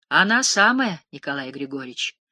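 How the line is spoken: Calm, smiling. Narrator (Russian): сказала Лебедуха, улыбаясь спокойно

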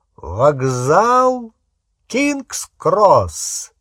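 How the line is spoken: Bursting laughter. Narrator (Russian): Дамблдор расхохотался

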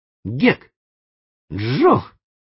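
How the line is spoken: Exclaimed. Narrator (Russian): воскликнул он

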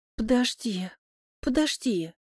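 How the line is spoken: Moaning. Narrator (Russian): Стонет тетя

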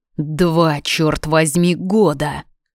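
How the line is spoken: Growling. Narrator (Russian): рычал, целуя шею

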